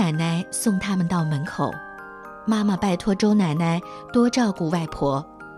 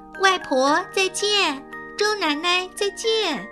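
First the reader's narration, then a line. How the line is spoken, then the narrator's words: Loud. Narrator (Chinese): 阿丽大声地说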